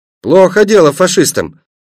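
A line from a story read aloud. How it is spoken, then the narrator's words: Loud. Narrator (Russian): громко сказал Пашка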